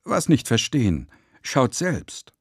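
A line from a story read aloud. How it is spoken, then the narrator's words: Insistent shout. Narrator (German): Als er merkte, dass wir ihm nicht recht glauben wollten, rief er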